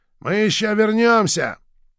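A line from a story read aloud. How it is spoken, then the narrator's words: Shouted. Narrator (Russian): Верзила выкрикнул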